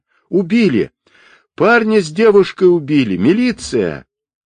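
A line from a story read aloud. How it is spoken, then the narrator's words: Loud shout over crowd. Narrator (Russian): Перекрывая шум взволнованной толпы, мужчина громко закричал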